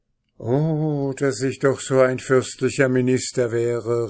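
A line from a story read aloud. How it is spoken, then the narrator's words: Exclaimed. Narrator (German): rief der Oberst aus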